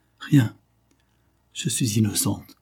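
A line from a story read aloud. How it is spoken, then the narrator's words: Young woman murmuring. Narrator (French): murmure la jeune femme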